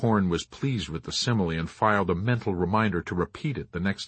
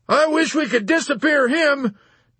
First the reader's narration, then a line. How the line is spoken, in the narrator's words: Colonel Cathcart blurted out peevishly